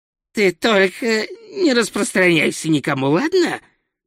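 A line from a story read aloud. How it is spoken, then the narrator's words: Hissed. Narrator (Russian): прошипел Хью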